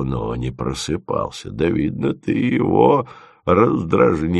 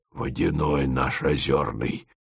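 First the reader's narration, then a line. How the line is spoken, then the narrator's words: Old man whispering. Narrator (Russian): шепотом пояснил дед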